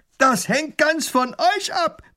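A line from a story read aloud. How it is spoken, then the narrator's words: Robber roaring. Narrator (German): brüllt der Räuber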